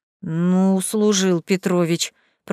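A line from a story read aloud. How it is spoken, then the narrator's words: Grumbling. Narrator (Russian): проворчал Тамерлан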